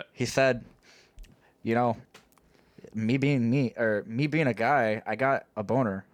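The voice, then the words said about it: Imitated speech impediment, slight Canadian accent. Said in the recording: “the Cameron accent ... took Cameron's speech impediment and threw a little bit of Canadian in there too”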